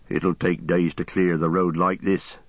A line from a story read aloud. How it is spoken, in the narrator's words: he said